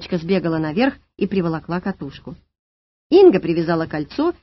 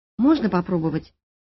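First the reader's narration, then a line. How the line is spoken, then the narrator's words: Timid question. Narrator (Russian): робко спросила Алла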